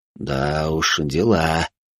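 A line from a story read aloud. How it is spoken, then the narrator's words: Muttering under breath. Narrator (Russian): буркнул я себе под нос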